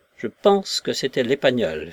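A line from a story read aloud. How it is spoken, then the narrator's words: Calm niece. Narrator (French): fit calmement la nièce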